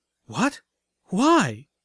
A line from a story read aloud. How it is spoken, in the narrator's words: Velvet stammered